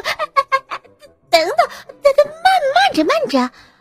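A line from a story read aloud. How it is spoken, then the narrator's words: Hurried. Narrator (Chinese): 老鼠急忙说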